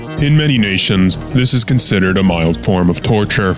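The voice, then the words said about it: Deep announcer voice. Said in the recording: “Deep Voice Man”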